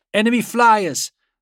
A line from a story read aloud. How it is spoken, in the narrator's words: Yastin called out